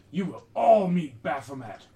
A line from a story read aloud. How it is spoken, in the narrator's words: One of them screams